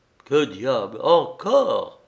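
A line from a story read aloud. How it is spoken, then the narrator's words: Cried out. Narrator (French): s'écria-t-il en apercevant Vassia qui écrivait toujours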